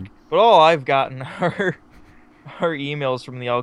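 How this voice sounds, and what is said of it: Usual voice. Nothing is said of it.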